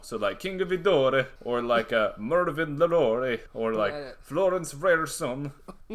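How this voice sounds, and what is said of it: Weird put-on accent. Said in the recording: “I'm just going to do it in a weird accent every time there's something that I don't know.”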